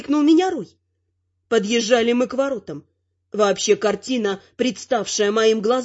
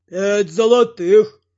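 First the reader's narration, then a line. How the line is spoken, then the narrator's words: Deep booming bass. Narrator (Russian): пробасил высоченный, лысый, шкафообразный тролль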